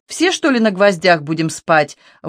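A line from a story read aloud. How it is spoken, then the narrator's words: Chuckling. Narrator (Russian): Вовка хохотнул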